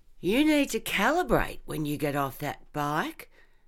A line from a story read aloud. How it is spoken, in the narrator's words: Max had observed dryly